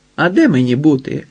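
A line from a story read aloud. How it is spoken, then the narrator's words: Laughed. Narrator (Ukrainian): розсміялася Тайка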